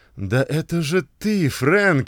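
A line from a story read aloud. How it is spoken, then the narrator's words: Exclaim. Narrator (Russian): воскликнул он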